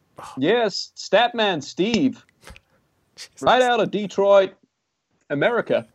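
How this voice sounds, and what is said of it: Put-on American accent. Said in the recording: “that is 100% authentic American accent. There's no putting that on. ... Detroit with that accent, wow.”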